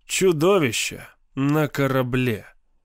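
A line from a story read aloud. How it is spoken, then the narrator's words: Glum. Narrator (Russian): Юал уныло сказал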